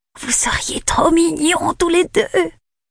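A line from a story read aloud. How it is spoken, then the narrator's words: Whispering. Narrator (French): chuchote-t-elle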